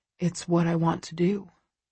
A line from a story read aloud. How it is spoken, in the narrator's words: he says quietly